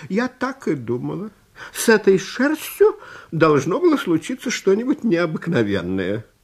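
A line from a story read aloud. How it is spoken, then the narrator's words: Old woman's exclamation. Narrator (Russian): Старушка воскликнула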